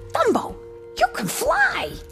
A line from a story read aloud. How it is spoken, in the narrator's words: He shouted joyfully